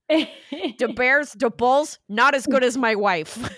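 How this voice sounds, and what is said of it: Midwest dad accent. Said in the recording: “I gave him a Midwest dad's accent ... you made him sound like he loves the Bears ... I was doing my dad's voice specifically”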